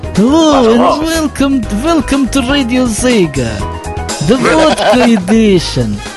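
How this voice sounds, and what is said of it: Put-on Russian accent. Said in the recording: “Russian accent.”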